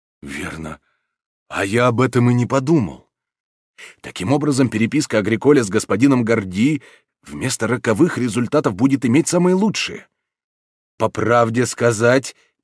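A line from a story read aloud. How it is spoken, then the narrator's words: Whispered. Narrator (Russian): прибавил достойный патер, шепотом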